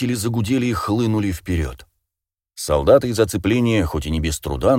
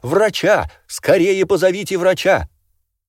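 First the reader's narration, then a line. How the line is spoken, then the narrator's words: Very loud woman shouting. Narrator (Russian): очень громкий женский голос закричал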